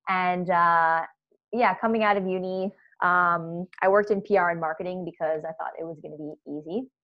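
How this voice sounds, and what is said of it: American accent. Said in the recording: “I'm American, uh, if you couldn't tell by my accent.”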